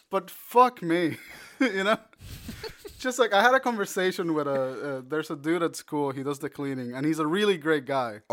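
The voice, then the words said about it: Puerto Rican Spanish accent. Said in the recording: “I'm Puerto Rican. ... So my accent is like very. There's no real way that you can confuse my accent for anything other than Puerto Rican, maybe Cuban.”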